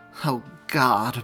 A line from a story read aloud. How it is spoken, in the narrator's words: Mary mumbled